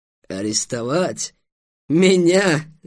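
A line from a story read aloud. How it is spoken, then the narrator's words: Loud laughter. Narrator (Russian): Аблухай расхохотался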